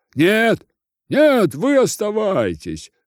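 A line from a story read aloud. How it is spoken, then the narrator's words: Crowd shouting. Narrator (Russian): закричали из толпы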